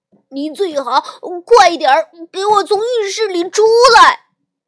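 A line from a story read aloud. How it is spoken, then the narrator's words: Shouting. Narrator (Chinese): 小熊哥哥一边喊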